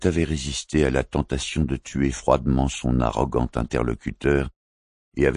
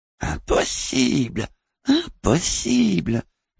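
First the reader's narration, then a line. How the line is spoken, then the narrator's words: Strange thin voice. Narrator (French): avait-elle déclaré d'une étrange voix fluette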